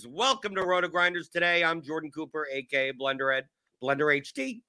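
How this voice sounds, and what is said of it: Sick, strained voice. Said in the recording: “I'm surprised I was able to get all that off without coughing. I've been under the weather for the past couple of days ... My voice may give out”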